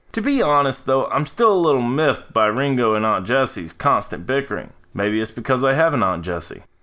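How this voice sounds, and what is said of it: American Southern accent. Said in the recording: “If you can't tell from my accent, I am a Southern boy”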